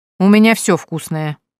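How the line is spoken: Grumbling, hiding pleasure. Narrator (Russian): проворчал Евгения, тщательно скрывая то, как ей понравилась похвала соседа

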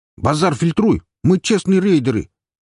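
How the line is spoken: Loud. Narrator (Russian): тоже громко

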